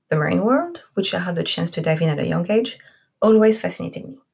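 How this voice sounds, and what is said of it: French accent. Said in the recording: “my accent, I am French”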